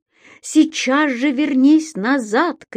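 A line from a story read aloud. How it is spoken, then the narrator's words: Shouted. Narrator (Russian): крикнул он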